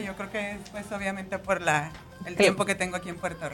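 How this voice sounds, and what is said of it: Mexican accent mixed with Puerto Rican. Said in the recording (Spanish): “es mexicana ... Me encanta escuchar su acento ... me dicen que me oigo como combinada”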